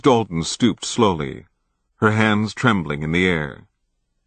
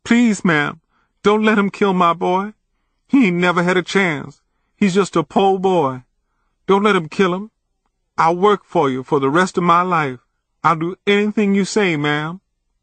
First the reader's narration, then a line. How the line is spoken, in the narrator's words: the mother sobbed